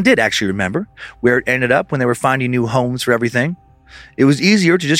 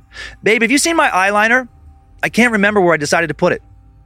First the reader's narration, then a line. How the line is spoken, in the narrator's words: Angie snapped him out of these weird thoughts when she called out